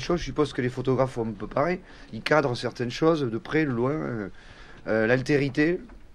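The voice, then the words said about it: Béarnais Occitan-influenced French accent. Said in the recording (French): “j'ai un accent, évidemment, qui vient d'une langue, qui est l'occitan ... Moi, je suis béarnais”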